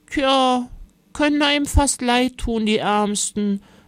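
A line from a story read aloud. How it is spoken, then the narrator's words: Grandmother sighing. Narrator (German): seufzte Oma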